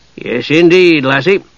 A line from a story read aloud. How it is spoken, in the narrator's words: he said, raising his voice